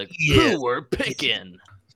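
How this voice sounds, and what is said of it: Impression of SportsCenter announcer. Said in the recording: “They were all styled after the Sports Center announcer guy ... I'm just doing a impression of the Sports Center guy”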